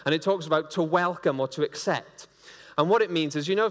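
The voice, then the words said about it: Welsh accent. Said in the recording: “I'm going to pronounce this with a Welsh accent,... you're getting the Welsh-Greek version here”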